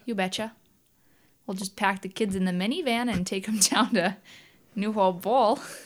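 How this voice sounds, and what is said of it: Put-on Midwestern American accent. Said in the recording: “Can you do a Midwestern accent? ... Sure. I guess maybe a little bit.”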